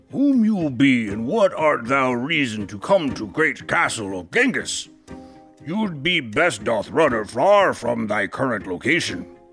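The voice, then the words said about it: Heavy accent, guard character voice. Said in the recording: “spoke one with a heavy accent.”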